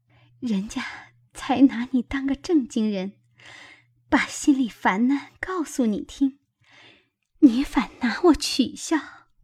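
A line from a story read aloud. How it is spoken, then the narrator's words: Embarrassed laugh. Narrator (Chinese): 黛玉红了脸，笑道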